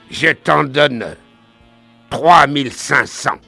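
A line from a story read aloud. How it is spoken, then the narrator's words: Stranger barking. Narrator (French): aboya l'étranger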